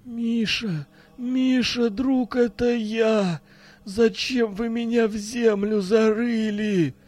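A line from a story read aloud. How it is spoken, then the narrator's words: Mournful moan from outside. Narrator (Russian): Простонал за окном тоскливый голос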